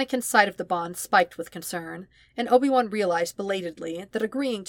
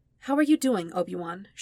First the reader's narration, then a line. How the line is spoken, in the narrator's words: she asked